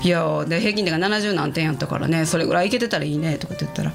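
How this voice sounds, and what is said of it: Kansai dialect speech. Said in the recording (Japanese): “私今関西弁で喋ってるから関西弁になっちゃうけど”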